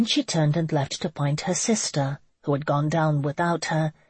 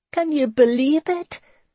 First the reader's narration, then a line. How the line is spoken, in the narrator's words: Brenna giggled and shook with pure joy